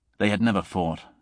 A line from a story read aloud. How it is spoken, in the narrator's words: he said